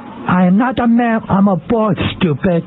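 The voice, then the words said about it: Garbled sticky-mouthed character voice. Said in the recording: “now it's stuck to my mouth, and I sound like a dope ... My mouth is all sticky ... And now I speak like a retard”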